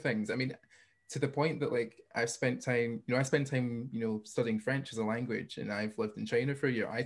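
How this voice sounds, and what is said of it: Light Scottish accent. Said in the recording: “my accent is sometimes on the lighter end as far as strong Scottish, British ... everyone's like, oh, Scottish accent ... I'm not coming over here with a thick accent.”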